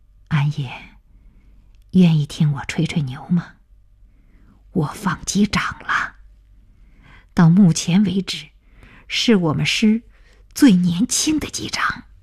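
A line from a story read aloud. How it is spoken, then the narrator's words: Gentle voice. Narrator (Chinese): 鹏飞开口了，声音温柔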